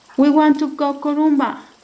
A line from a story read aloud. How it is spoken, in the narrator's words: Javi shouted